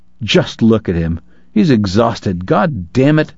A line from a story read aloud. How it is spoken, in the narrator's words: Uncharmed, Kate snarled